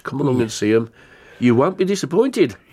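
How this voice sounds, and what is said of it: Put-on Birmingham Brummie accent. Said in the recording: “I went into a Brummie accent then... I knew it was an accent... It could have been Brummie... Polish at the end of it”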